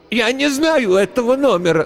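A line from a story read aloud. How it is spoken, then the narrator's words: Cracking cry. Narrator (Russian): срывающимся голосом выкрикнула старуха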